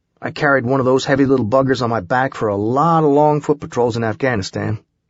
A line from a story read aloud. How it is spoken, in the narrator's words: he answered